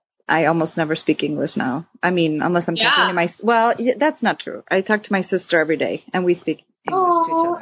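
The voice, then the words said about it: American English with slight Swedish twang. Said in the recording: “a little bit of like almost a Swedish like twang to like some of your words ... it's that like Chicago accent probably”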